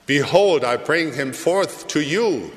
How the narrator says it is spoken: Pilate said

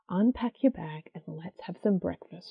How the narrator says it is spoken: she says quietly

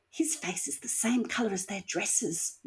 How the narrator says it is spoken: Nicole whispered to Tina

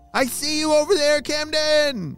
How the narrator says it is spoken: he shouted

